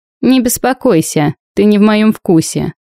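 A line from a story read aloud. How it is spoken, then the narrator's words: Laughing reply. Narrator (Russian): только рассмеялся в ответ, говоря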